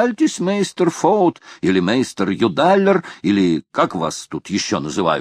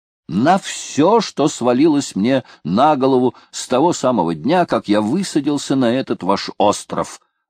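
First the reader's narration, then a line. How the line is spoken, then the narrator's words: Plain. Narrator (Russian): ответил агроном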